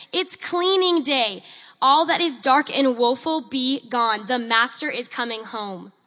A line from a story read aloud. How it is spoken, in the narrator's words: shouting aloud for all to hear